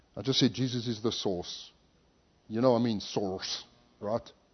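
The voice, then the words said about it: Speaks with a regional accent. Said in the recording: “because of my accent.”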